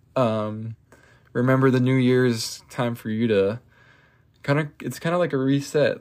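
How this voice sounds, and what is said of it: Strained, fading voice. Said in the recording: “I'm kind of losing my voice”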